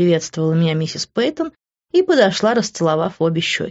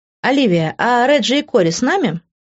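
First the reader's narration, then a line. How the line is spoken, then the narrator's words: Plain. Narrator (Russian): спросила Патриция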